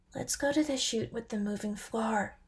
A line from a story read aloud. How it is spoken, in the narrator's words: whispered Lyke